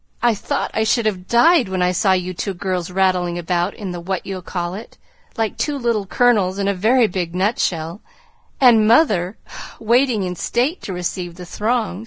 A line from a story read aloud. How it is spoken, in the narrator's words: sighed Joe, quite spent with laughter